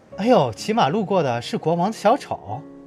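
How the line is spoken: Crowd, laughing. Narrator (Chinese): 百姓们笑了，他们说

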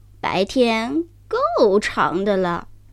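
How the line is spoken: Strange, weird voice. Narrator (Chinese): 一个声音怪声怪气地说

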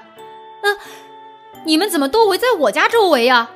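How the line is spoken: Bewildered shouting. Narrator (Chinese): 乌鸦爸爸不知所措的大喊着

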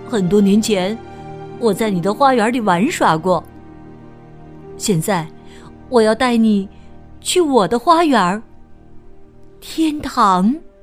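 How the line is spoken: Smiling child. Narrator (Chinese): 男孩微笑着说

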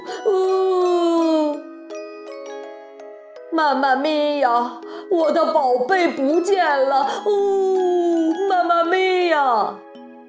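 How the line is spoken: Loud wailing. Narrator (Chinese): 马克波罗大哭

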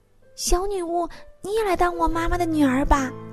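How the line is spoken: Calling out. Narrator (Chinese): 雪儿对着窗口叫

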